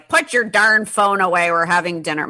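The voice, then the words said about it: Imitates father with New York accent. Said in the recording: “My dad is from New York. I don't know why I use that accent”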